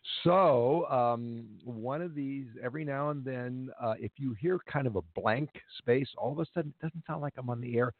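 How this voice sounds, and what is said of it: Hoarse voice with a cold. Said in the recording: “apologize in advance for my voice ... I have a cold and a cough ... I'm still got a little bit of a frog in my throat”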